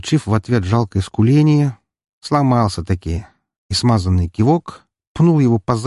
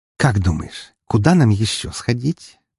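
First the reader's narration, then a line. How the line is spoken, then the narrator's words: Pleased purring. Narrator (Russian): промурлыкала довольная девушка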